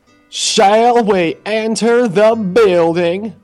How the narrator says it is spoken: He said in his most fancy voice

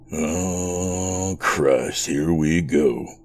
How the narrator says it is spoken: Chris mumbled to himself

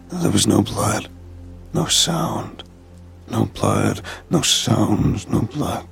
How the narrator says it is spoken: he muttered under his breath

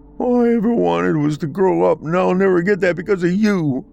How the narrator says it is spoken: a young boy yelled in a teary, broken voice

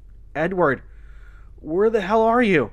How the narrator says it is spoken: Martha shouted

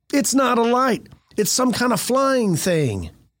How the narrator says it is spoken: One woman cried out

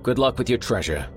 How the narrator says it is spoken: the man called after him

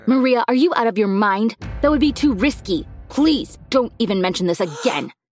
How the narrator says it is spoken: yelled

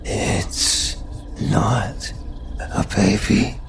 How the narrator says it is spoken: she breathed

